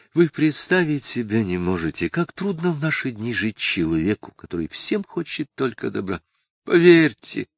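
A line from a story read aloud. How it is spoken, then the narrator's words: Agitated whisper. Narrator (Russian): Брагин взволнованно шептал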